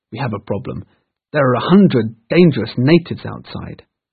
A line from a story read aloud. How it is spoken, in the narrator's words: cried